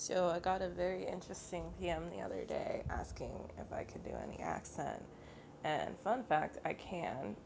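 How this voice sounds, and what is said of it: Raspy, tired, sick-sounding voice. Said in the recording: “excuse the raspiness and the general tiredness in my voice, I'm sick. And I sound worse than usual. ... I sound like I still smoke cigarettes”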